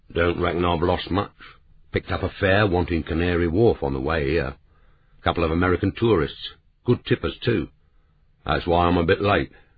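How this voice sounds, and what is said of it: Deep bass voice, Cockney accent. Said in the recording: “His voice was a deep, attractive bass, but its accent was pure Cockney.”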